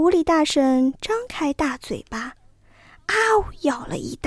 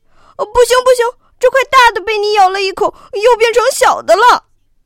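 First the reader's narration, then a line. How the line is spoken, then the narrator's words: Crying out. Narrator (Chinese): 哥俩又叫起来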